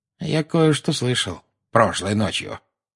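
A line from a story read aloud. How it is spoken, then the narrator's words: Quiet. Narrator (Russian): негромко сказал Дадли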